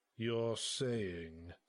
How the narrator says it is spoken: said Baron Sibius, in a deadpan voice that put all of mine to shame

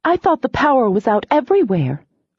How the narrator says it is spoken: exclaimed

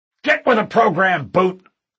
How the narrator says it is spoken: the trainer snarled

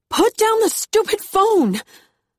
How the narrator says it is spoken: scream into my car

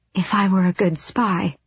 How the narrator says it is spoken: Elide breathed

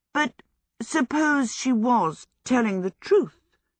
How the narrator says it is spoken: she went on anxiously

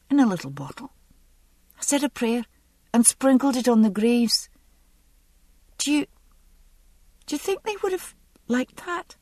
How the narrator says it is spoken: I caught the quaver in her voice, and realised that for all her self-possession, the last 2 days had been a terrifying ordeal for the girl

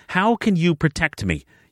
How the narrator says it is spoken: she snapped

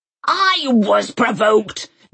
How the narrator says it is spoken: Granny had roared

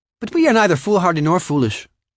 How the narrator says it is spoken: Scatty snapped

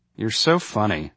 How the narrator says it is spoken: said dryly

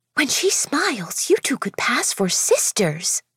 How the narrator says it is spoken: Delia Grace whispered beside me

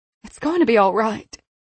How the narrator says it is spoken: her mother said more anxiously

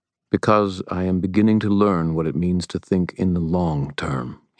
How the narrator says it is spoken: he replied, his voice serious

